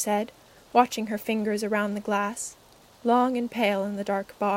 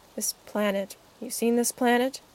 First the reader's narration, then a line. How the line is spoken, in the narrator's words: the doctor muttered